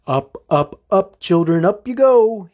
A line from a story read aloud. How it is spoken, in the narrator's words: he chirped